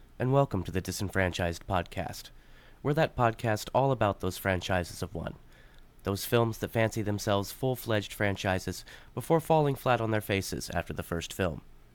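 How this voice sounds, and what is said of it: Smooth public-radio announcer voice. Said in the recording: “this is my NPR voice.”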